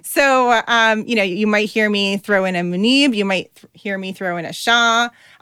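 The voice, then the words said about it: New Jersey accent. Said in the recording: “my New Jersey accent, it ends up sounding like Shaw ... my Jersey accent”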